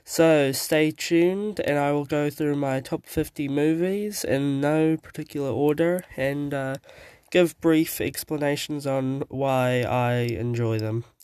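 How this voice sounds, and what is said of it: Sick-sounding voice. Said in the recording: “I sound a bit weird, it's because I've been sick. I am sick currently.”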